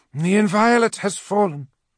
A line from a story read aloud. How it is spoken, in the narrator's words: Ultio called out across the bridge